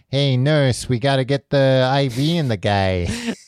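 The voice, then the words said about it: Exaggerated New York accent. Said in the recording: “did a weird accent that I feel like wasn't yeah. fully fleshed out of like, I'm going to be a New York doctor”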